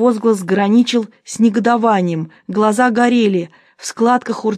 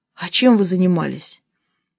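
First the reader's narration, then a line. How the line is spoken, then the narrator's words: Quiet question. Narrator (Russian): я тихо спросил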